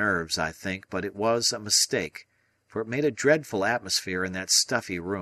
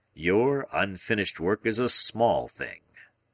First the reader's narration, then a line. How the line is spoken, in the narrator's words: said Challenger pompously